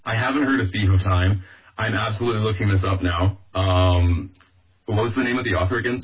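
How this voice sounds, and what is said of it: Slightly hoarse, fading voice. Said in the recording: “I'm losing my voice a little bit.”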